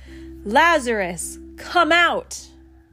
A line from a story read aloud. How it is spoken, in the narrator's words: he yelled like a lion's mighty roar